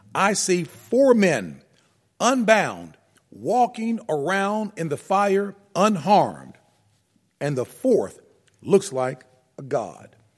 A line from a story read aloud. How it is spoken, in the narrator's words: Nebuchadnezzar shouted